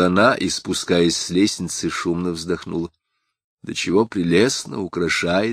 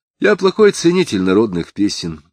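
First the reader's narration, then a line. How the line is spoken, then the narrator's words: Dry. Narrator (Russian): сухо выговорил Самгин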